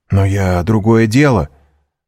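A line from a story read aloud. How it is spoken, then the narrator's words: Breathless excited exclamation. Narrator (Russian): воскликнул Альбер, задыхаясь от волнения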